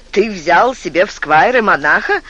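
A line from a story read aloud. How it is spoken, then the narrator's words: Joking quip. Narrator (Russian): сострил Стефан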